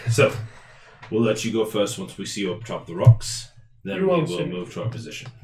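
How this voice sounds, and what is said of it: Speaks in a put-on accent. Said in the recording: “I don't know why I have this accent now, but I apparently do.”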